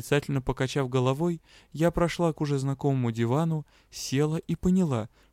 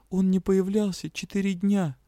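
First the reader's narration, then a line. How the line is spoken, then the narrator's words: Strangled moan. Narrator (Russian): сдавленно простонала я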